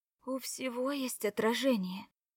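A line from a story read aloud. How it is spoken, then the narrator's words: Whispered. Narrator (Russian): шептала Кора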